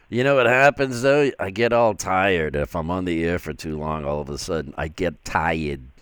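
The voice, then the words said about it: Boston accent. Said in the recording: “there's that Boston accent.”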